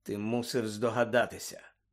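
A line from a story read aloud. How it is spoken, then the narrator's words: Quiet. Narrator (Ukrainian): тихо мовив Люпен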